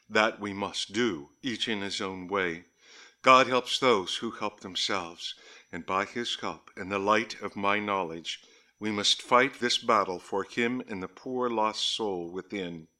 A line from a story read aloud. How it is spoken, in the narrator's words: said solemnly